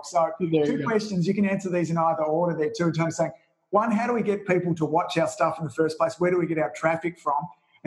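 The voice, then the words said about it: Rough broad Australian accent. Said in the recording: “So I've got this kind of rough old crazy Aussie accent”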